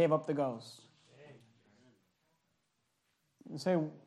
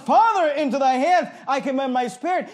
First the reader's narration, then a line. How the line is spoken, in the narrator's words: cried with a loud voice and he said